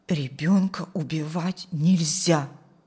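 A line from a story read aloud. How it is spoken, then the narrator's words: Firm declaration. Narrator (Russian): твердым голосом заявила Ирина Игнатьевна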